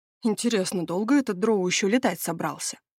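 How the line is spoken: Grumbling. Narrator (Russian): проворчал Стивен

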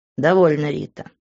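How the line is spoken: Rude, cutting interruption. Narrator (Russian): грубо оборвал ее Грант

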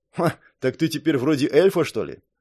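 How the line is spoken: Snorting. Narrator (Russian): хмыкнул Орсон

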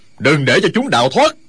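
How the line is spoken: Furious loud shout. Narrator (Vietnamese): Du Liên Châu cả giận quát to

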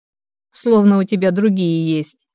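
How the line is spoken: Short laugh. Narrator (Russian): хохотнул Денис

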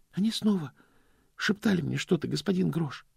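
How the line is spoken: Quiet confession. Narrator (Russian): сознался Стэнли тихим голосом

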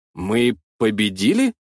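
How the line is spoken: Uncertain guess. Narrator (Russian): предположил неуверенно

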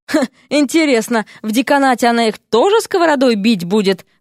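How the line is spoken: Snorting. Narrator (Russian): хмыкнул Ипполит

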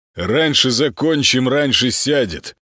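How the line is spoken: Pleased correction, chuckle. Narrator (Russian): поправил Молчин и довольно хмыкнул

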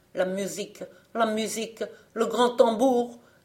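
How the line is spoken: Desperate shouting. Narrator (French): criait-il avec désespoir

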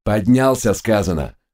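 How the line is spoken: Barked. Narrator (Russian): рявкнул Глок

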